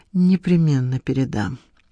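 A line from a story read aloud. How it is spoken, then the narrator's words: Muttering. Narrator (Russian): пробормотала Надежда Николаевна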